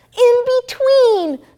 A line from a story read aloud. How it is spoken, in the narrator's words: shouted Peg